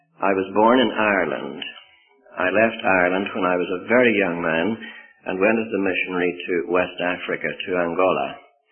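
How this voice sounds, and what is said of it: Mixed, hard-to-place accent. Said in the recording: “I'm supposed to have some sort of an accent. I didn't know that I had, but there it is... I am, I suppose, the complete mongrel”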